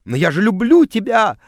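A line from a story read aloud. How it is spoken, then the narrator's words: Sobbing. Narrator (Russian): рыдала она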